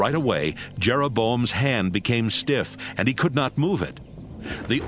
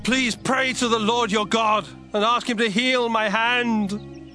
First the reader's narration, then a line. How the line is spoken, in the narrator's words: Jeroboam begged